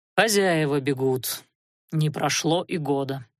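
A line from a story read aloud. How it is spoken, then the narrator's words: Tired speech. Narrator (Russian): Анхайлик устало сказал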